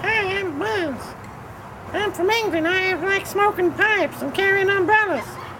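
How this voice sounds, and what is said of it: Squeaky put-on British cartoon voice. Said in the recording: “I like me British accent, and me voice is nice and squeaky ... you just need to lower your voice a little bit, and stop talking so fruity style”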